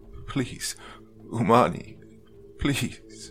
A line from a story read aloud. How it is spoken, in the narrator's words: He mindlessly stammered